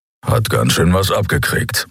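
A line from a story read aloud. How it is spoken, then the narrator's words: Grumbling. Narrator (German): brummte Keru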